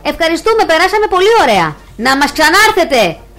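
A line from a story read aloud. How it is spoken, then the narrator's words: Muffled shout from inside. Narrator (Greek): φώναξε και ο κλόουν μέσα από το στόμα του λιονταριού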